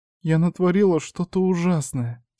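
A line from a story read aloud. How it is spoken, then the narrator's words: Doubtful whimper. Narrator (Russian): с сомнением проскулила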